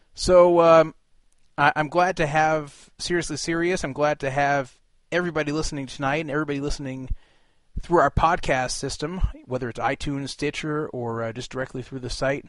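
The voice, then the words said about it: Hoarse, sick-sounding voice. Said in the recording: “throat, as well as the cough... You can probably already hear my voice is not quite the same right now.”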